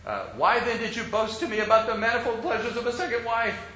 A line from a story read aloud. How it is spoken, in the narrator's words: Ali demanded angrily